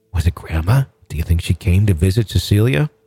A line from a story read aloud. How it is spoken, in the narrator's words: She continued in a hushed whisper